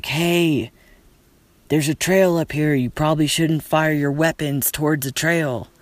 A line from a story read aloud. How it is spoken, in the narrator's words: I yelled down like